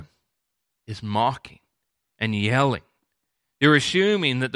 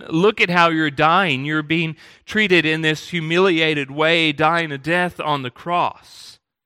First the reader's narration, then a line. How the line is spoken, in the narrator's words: this criminal who is mocking him, saying